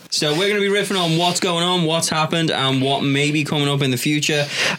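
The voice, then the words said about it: Heavy Liverpool Scouse accent. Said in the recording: “our quite heavy accents ... the accent is quite harsh, can get on a few people's nerves ... It's a weird accent, the Scouse accent”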